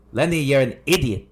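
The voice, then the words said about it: Father's voice with a heavy accent. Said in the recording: “Did he have an accent? ... Yeah, big accent.”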